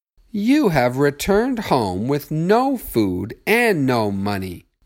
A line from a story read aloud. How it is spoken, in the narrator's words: exclaimed